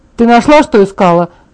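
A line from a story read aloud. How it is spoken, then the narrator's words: Shouting. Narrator (Russian): прокричала Чарли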